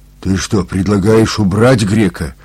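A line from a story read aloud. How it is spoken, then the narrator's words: Surprised exclamation. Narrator (Russian): удивленно воскликнул Макарыч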